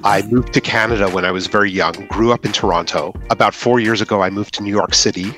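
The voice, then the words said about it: Hard-to-place mixed accent. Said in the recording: “I can't work out your accent at all”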